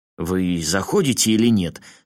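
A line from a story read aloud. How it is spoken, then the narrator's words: Slightly irritated question. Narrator (Russian): слегка раздраженно спросил вахтер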